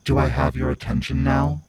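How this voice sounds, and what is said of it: Low, menacing voice. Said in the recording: “she asked in a low voice that slithered across my skin”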